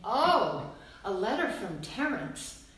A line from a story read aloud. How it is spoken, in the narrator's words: she'd exclaim